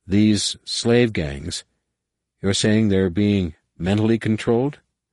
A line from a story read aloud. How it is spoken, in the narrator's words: Jason said slowly